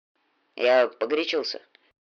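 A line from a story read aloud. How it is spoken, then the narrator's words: Grumbled. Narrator (Russian): буркнул наконец Ник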